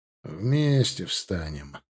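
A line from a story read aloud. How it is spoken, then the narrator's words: Grumbling. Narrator (Russian): проворчал Алексей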